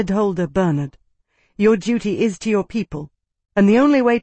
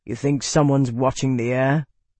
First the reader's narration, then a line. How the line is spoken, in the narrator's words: He growled